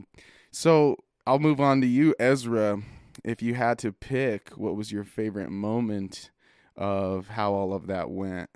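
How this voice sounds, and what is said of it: Slightly hoarse voice. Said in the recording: “my voice is still a little bit hoarse from screaming at the top of my lungs”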